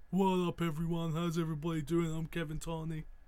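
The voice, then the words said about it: Imitates another person's voice. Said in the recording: “that an impression? ... Good impression, right? ... Nailed it.”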